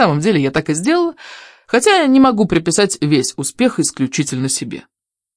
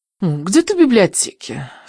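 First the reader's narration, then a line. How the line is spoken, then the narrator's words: Snorting. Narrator (Russian): фыркнула Даффи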